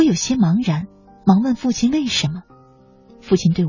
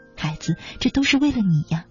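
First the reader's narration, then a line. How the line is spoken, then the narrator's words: Heavy sigh. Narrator (Chinese): 父亲长叹了一口气，对我说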